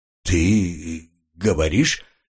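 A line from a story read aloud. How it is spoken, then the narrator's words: Slight stammer. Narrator (Russian): Чуть запинаясь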